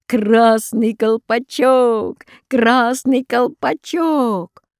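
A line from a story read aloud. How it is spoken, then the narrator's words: Laughing shout. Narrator (Russian): Волшебный конек только засмеялся и крикнул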